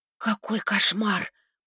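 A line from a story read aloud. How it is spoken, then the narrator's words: Whisper. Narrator (Russian): прошептала Настя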